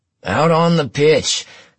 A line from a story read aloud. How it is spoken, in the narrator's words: Klein hollered